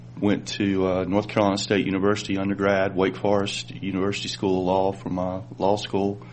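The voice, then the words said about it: North Carolina Southern accent. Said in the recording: “I'm from North Carolina. You can probably tell by my accent.”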